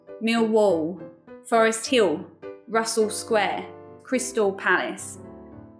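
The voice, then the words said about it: Cockney dark L sounding like W. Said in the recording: “the dark L in the Cockney accent, which is where the L sound gets closer to a W”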